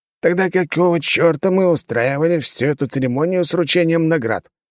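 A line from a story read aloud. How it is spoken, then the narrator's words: Grumbling. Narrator (Russian): проворчал бургомистр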